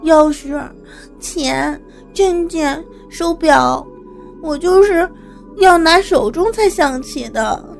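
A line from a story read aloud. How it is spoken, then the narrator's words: Woeful, near tears. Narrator (Chinese): 兰香哭丧着脸说道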